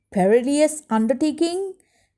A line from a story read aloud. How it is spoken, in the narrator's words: Cousin Ingrid shouted